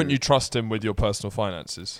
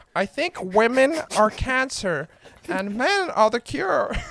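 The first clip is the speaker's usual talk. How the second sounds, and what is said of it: Imitates another person's voice. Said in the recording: “do your Jordan Peterson accent?”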